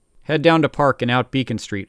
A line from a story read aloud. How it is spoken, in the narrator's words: I said